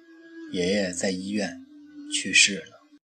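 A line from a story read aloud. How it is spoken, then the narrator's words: Hoarse voice. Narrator (Chinese): 妈用嘶哑的嗓音对他说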